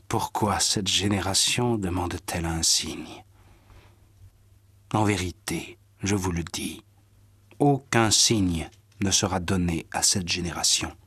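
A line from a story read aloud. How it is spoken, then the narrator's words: Sighing, then speaking. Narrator (French): Jésus soupira et dit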